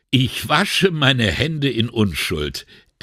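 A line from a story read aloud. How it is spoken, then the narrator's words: Laughing. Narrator (German): erklärte er lachend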